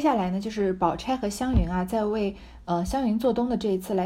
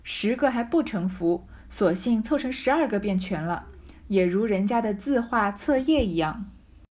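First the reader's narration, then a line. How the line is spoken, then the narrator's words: Laughing. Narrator (Chinese): 湘云又笑道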